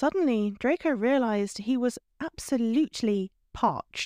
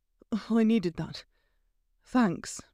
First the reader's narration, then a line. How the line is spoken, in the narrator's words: gasped